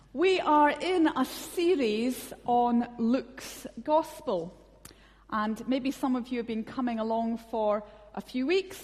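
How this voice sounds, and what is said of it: Scottish accent. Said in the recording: “a plethora of Scottish accents tonight”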